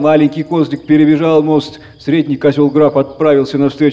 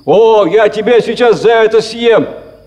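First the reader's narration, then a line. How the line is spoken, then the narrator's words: Troll shouting. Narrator (Russian): закричал тролль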